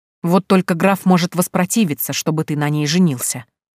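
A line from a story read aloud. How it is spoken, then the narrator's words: Through gritted teeth. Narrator (Russian): процедил барон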